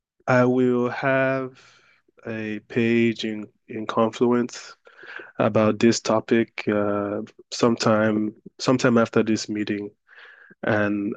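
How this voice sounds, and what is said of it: Voice sounds sick. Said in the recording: “I'm a bit under the weather today, so pardon my voice.”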